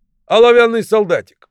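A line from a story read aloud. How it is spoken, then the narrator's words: Shout. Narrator (Russian): кто-то закричал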